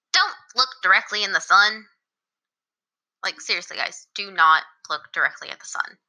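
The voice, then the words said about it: Motherly, scolding voice. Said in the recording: “in my most motherly voice,”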